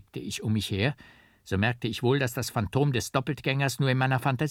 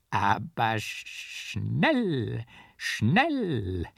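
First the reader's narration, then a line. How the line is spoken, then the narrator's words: Laughing, groaning, stuttering. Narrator (German): lachte und stöhnte mein Doppeltgänger, wie er sonst getan, und stotterte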